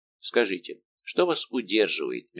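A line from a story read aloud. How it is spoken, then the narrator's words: King's gentle question. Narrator (Russian): мягко спросил Д'Артаньяна король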